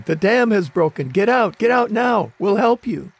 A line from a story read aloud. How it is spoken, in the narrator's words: a Red Cross worker yelling